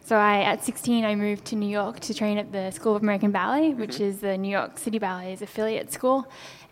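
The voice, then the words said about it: Australian accent. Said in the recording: “you do not have an American accent ... I'm Australian. Australian.”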